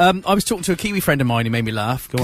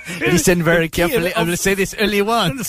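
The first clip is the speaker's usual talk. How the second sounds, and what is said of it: Put-on French-Scottish mixed accent. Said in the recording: “What sort of accent's that? ... It's a cross between French and Scottish.”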